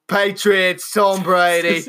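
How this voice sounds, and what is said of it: Put-on accent drifting into Australian. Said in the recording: “Now you're just going deep into Australian again. We realize that's the only really sort of semi-British accent.”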